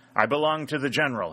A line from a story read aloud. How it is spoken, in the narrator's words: he exclaimed